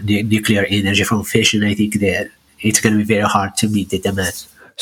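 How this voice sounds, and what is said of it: Moroccan-accented English. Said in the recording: “you have an interesting accent ... you're from Morocco”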